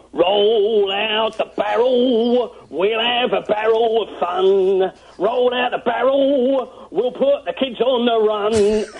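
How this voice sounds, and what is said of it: Sings in a Cockney accent. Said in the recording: “singing another terribly sad song in your Cockney accent”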